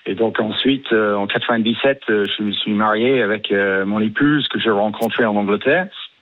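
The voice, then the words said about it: British accent speaking French. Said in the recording (French): “vu votre accent britannique”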